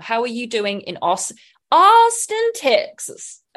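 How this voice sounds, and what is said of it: Bad put-on Texas accent. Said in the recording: “I apologize for that accent. ... That was bad.”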